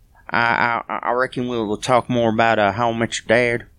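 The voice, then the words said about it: Stereotypical Southern accent. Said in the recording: “Possessed by a stereotypical southern accent.”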